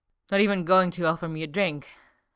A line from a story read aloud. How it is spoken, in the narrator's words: Eska says breathlessly